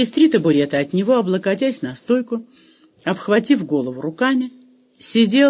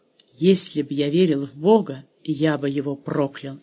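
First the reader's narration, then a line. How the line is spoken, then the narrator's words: Low hoarse growling mutter. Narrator (Russian): негромко, хрипло пробурчал словно больной медведь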